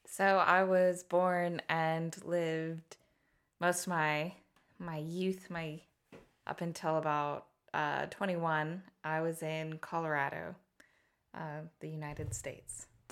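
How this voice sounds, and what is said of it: American accent. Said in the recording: “an American accent”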